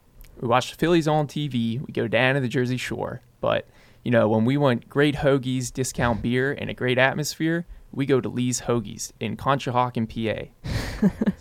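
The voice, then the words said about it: Philadelphia regional accent impression. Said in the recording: “can you do an impression of these various regional accents? ... So that's the Philly right there.”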